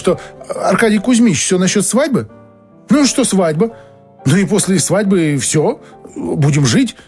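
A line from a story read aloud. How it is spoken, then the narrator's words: Timid female voice. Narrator (Russian): проговорила она робко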